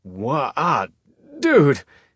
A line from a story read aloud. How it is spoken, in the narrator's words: he sputtered